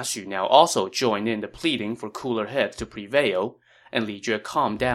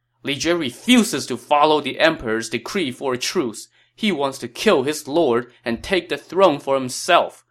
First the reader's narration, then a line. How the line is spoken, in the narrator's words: Huang Fu Li shouted